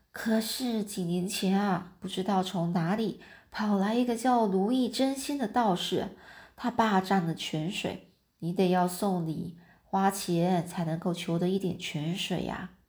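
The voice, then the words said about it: Quiet, hushed voice. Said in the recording (Chinese): “说老婆婆就小声的说”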